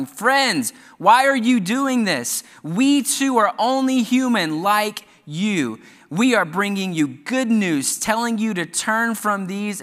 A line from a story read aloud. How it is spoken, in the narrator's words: the apostles, Barnabas and Paul, rushed out into the crowd, shouting